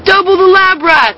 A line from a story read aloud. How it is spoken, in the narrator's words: the kids applauded and shouted